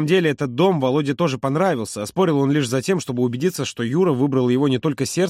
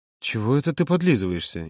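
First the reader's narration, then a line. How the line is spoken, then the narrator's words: Playful grumble. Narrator (Russian): игриво буркнул Володя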